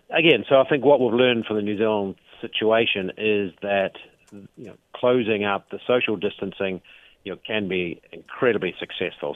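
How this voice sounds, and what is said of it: New Zealand accent. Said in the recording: “your accent gives you away a little bit. You're familiar, because it is your homeland, with what New Zealand has done”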